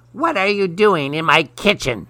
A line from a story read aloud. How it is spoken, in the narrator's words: snapped the witch